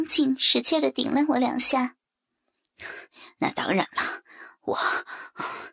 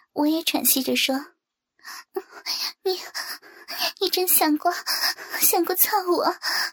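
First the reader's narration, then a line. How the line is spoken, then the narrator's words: Panting. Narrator (Chinese): 张静一边喘息着说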